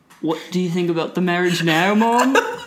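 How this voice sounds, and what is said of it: Put-on accent, self-described as poor. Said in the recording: “Excuse my horrible accent”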